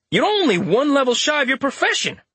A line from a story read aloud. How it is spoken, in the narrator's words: Richter exclaimed